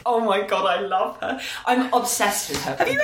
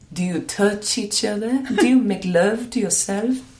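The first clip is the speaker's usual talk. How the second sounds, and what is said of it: Imitates another person's accent. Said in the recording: “Her accent. ... It's such a soothing voice.”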